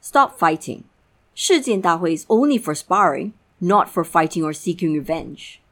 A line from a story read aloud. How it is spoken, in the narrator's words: speaking in a stern voice